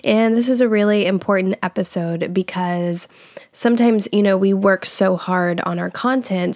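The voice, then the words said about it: Stuffy, congested sick voice. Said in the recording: “apologize for my voice ... I'm trying to get through a sickness right now, and so I sound all weird and stuffy”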